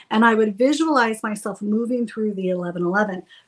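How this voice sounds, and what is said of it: Usual voice. Nothing is said of it.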